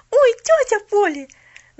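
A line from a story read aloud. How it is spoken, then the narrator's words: Unrestrained shout. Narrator (Russian): Забыв обо всем, закричала она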